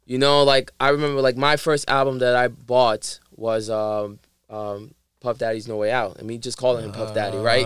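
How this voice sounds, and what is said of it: New York Harlem accent. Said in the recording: “I don't think I have a Dominican accent ... I have like a New York Harlem accent”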